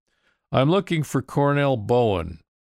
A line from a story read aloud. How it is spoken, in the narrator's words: I called out